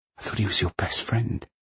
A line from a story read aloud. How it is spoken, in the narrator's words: whispered Kay